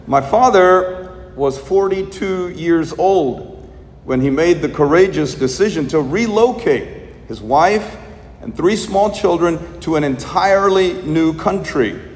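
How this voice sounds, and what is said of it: Thick Indian accent. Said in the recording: “as you can tell from my very thick Indian accent.”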